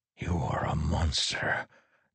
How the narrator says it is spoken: Teft whispered

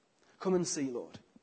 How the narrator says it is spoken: they replied

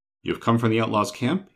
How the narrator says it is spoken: he said with his voice trembling

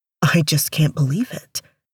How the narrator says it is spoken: he murmured to himself

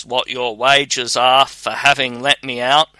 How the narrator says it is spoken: he cried in an awful voice

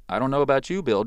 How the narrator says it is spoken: Joseph said

